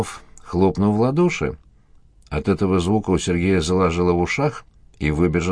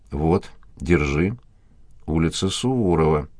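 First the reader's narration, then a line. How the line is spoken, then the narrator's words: Slow reading aloud. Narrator (Russian): медленно прочитал капитан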